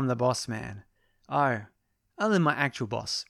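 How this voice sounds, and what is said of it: Usual voice. Nothing is said of it.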